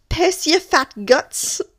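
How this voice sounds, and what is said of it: Put-on Scottish accent. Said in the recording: “in a Scottish accent”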